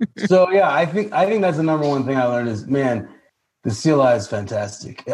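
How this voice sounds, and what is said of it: Usual voice. Nothing is said of it.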